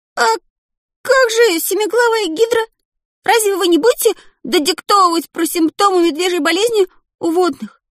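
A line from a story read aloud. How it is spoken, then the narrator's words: Protesting squeak. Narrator (Russian): Протестующе пискнул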